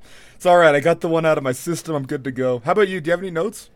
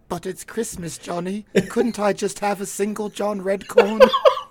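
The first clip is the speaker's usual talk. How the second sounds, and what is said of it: Imitates a cartoon character's voice. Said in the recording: “your Redcorn impersonation”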